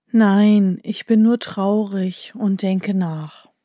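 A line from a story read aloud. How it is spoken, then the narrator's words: Sighing man. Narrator (German): der Mann, der seufzt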